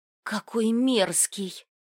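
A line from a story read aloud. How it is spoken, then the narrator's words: Whisper. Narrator (Russian): прошептала ему в спину Риса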